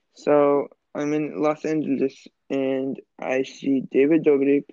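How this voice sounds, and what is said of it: Hard-to-understand put-on accent. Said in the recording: “I can't understand you when you're doing this accent.”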